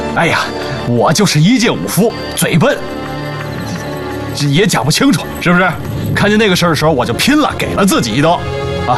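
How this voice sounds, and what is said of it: Speaks with a slight Northeastern Chinese accent. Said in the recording (Chinese): “听王兄的口音，不像是本地人 ... 我怎么听出点东北口音啊？”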